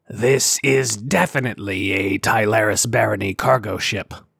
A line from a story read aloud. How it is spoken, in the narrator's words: Sar growled